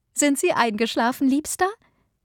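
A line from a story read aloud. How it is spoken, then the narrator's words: Wife asking, laughing. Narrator (German): fragte seine Frau lachend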